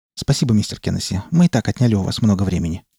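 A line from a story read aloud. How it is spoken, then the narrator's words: Hurried. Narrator (Russian): торопливо произнесла Скалли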